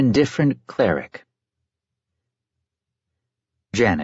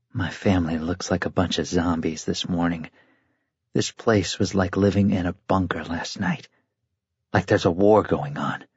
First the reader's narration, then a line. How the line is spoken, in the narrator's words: Jack said in a low voice so the girls eating their cream of wheat couldn't hear